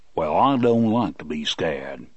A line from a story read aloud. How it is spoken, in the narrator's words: Bill rumbled